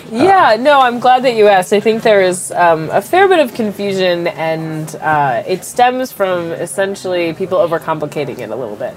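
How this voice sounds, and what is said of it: Congested, stuffed-up voice from a cold. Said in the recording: “I have a little bit of a cold. If I sound stuffed up”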